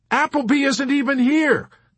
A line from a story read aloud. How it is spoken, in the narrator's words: Clevenger pointed out triumphantly to Yossarian